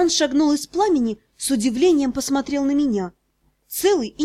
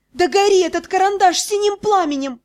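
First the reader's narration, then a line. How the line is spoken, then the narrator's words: Yelled. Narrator (Russian): заорала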